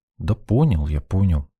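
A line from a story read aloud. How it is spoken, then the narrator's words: Grumbled reply. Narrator (Russian): буркнул в ответ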